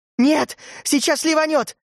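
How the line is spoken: Yelling. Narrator (Russian): завопила Урсула

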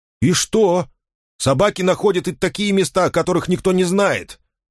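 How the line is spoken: Sharp. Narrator (Russian): Резко ответил он

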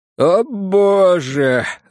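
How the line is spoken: Voice breaking into sobs. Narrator (Russian): раздался незнакомый мне, срывающийся на рыдание голос

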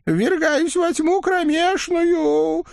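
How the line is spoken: Fading groan. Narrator (Russian): успел простонать на прощание Осип Никифорович, исчезая в мешке из-под угля

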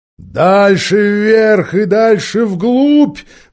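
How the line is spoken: Roaring unicorn. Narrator (Russian): взревел единорог

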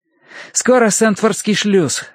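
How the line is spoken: Joyful announcement. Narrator (Russian): радостно объявил Терренс

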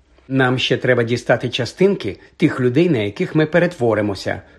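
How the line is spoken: Matter-of-fact tone. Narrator (Ukrainian): промовила вона буденним тоном, ніби йшлося про купівлю у супермаркеті прального порошку

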